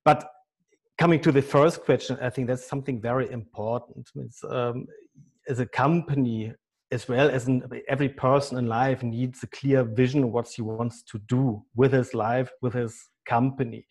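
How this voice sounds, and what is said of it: German accent. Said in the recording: “as you can hear easily by my German accent”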